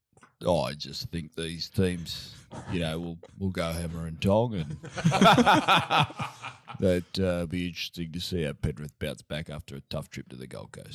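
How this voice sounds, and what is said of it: Imitates another person's voice. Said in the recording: “one of the great Griffin impersonators”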